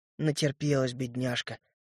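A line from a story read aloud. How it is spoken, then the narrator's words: Whispered. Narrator (Russian): шепотом сказал я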